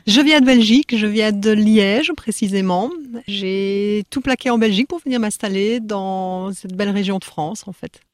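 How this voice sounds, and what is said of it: Slight Belgian French accent. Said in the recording (French): “une pointe d'accent ... Un petit accent belge”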